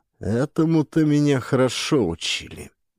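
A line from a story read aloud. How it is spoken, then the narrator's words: Gloomy reply. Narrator (Russian): мрачно отозвался Джеральд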